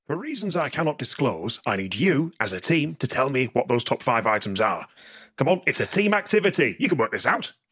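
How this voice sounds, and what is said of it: Inconsistent put-on accent. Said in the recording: “he's drifting more and more towards Fred Dibner... it's not a very consistent accent”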